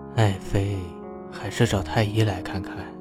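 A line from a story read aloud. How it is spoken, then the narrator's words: Tender, pained coaxing. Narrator (Chinese): 吕彻心里是一阵一阵的疼，柔声哄着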